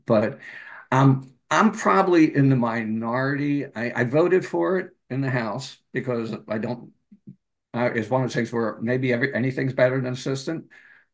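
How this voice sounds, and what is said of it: Slightly hoarse voice. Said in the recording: “if you think I'm a little hoarse, it's because I'm just getting over COVID”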